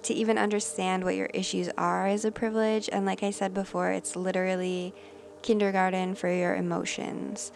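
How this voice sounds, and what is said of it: Voice sounds sick. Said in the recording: “sorry about my voice. I've had a fever. I've been sick.”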